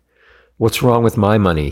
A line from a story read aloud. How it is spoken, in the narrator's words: yelled